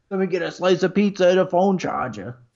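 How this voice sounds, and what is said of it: Put-on Brooklyn accent. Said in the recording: “That's my Brooklyn accent.”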